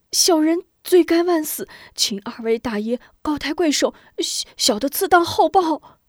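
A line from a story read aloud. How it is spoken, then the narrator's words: Hasty pleading. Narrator (Chinese): 张雄连忙哀求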